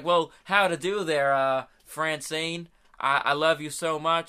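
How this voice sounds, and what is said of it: Attempted southern accent. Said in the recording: “I can't do a southern accent”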